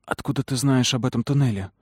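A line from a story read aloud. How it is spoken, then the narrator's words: Whispered question. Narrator (Russian): спросила шепотом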